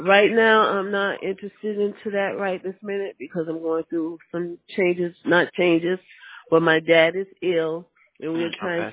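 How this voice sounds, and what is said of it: Congested voice with a cold. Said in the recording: “I have a bad cold”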